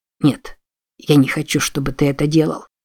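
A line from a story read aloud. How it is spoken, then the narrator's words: Very quiet. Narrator (Russian): очень тихо произнес Джексон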